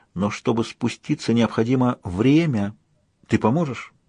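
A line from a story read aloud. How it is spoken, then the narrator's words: Whisper. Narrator (Russian): добавила она шепотом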